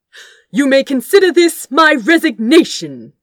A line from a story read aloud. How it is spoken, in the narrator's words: announced loudly